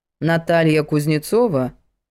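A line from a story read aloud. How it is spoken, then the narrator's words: Judge's menacing question. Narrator (Russian): Грозно вопросила судья на чистом русском языке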